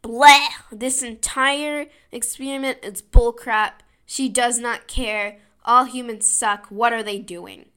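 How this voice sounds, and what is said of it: Impression of Bad Janet. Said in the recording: “It's a very nice Bad Janet impression.”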